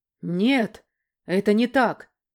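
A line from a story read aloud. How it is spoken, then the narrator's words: Sharp exclamation. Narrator (Russian): резко воскликнул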